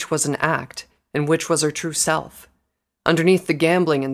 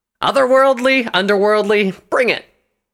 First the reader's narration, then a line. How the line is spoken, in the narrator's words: Scarlet shouted